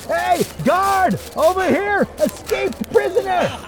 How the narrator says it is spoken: one of them shouting

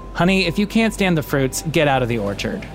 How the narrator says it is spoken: his voice straight as an arrow, and said

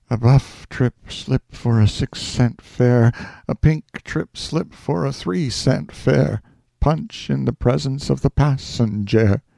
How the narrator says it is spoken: I sighed wearily and murmured

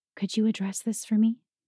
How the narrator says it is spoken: leaned in close to whisper

